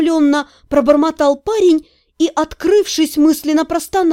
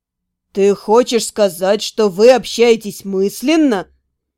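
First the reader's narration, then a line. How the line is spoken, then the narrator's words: Open amazement. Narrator (Russian): Неприкрытое изумление в голосе Харона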